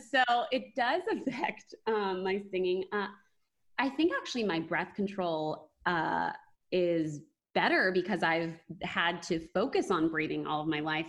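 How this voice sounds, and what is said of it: Vocal fry. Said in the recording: “vocal fry ... she has such a beautiful voice, but what is that vocal fry?”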